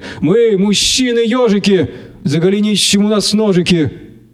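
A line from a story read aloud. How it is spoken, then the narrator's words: Drunken yelling over accordion. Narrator (Russian): Другие под визг гармоники пьяными голосами орали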